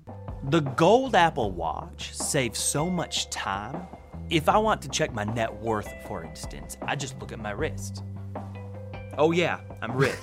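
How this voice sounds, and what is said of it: Speaks in a put-on accent. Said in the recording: “Why is he using that accent?”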